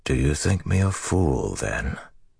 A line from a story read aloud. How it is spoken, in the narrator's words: Rand asked softly